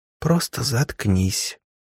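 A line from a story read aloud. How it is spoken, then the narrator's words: Whispered. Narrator (Russian): прошептала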